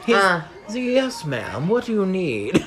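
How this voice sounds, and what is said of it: Polite customer service voice. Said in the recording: “customer service voice”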